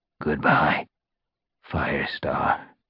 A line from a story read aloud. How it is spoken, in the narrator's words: he rasped